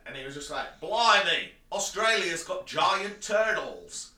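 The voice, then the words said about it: Put-on Australian accent. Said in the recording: “with an Australian accent.”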